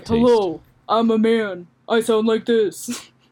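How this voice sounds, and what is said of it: Generic deep man's voice. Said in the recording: “a generic deep man voice ... Give us the deep man voice.”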